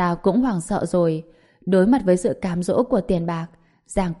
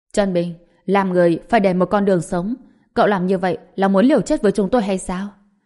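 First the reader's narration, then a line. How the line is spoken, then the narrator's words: Angry agreeing speech. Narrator (Vietnamese): Giang Quốc Thịnh tức giận phụ họa theo, nói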